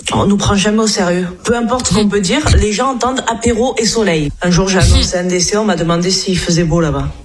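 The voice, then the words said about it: Southern French accent. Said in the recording (French): “elle a l'accent du Sud”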